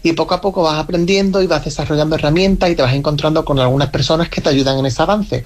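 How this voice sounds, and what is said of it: Slight regional Granada accent. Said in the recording (Spanish): “El acento, dice. Es verdad que tienen el puntito”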